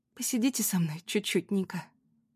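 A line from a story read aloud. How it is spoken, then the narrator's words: Whisper. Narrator (Russian): прошептала Анна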